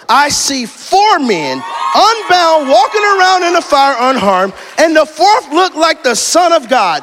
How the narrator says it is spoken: Nebuchadnezzar shouted

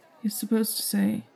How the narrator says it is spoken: Logan muttered

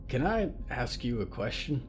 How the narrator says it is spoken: whispered Jacob

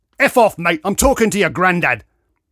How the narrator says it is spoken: spat Grey Ponytail

